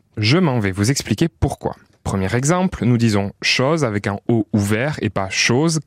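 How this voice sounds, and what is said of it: Sing-song southern French accent. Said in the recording (French): “je possède un accent du Sud ... les nordistes, eux, trouvent qu'on a l'accent chantant”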